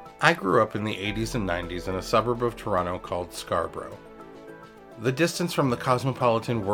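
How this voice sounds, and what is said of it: Usual voice. Nothing is said of it.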